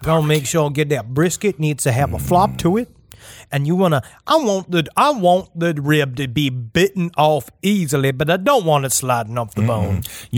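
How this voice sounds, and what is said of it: Put-on barbecue accent. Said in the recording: “I'm doing my barbecue accent.”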